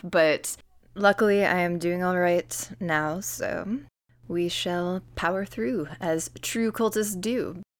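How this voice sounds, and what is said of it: Slightly sick-sounding voice. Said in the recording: “my voice is a little different today. I've been a little sick, so we'll we'll see if the vocal cords hold up”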